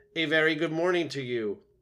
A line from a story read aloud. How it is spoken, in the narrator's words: the robot's friendly voice boomed over the water